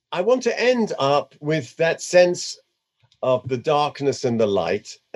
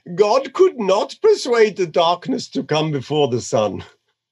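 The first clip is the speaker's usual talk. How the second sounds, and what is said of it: Put-on Indian accent. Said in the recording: “I'm going to do it in an Indian accent, because he was a guru.”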